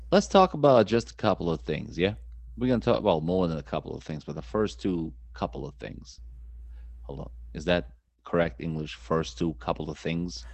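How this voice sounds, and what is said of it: Speaks with a strong accent. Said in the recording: “the abomination that is your accent ... the guy with the accent”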